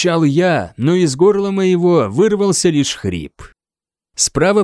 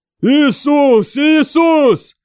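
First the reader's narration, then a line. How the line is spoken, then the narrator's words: Shouting. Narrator (Russian): кричал кто-то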